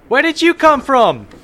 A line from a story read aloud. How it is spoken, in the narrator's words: the ranger yells